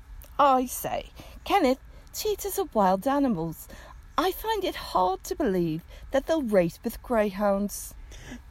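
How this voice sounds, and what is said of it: Put-on English accent. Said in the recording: “it's better than my Irish accent... it might be because you're English”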